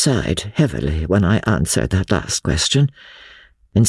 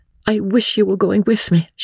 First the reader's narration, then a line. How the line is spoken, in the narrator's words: she said, catching eagerly at my arm